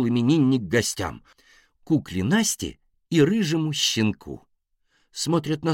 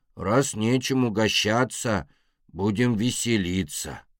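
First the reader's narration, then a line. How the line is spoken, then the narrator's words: Sighing. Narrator (Russian): вздохнул Мишка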